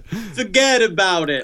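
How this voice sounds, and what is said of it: Put-on Brooklyn accent. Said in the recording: “Very good Brooklyn accent.”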